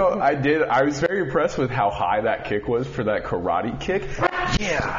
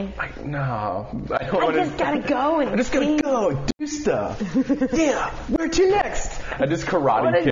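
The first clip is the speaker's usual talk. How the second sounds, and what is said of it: Imitates another person's voice. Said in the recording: “Can I hear a little more of the impersonation of me?”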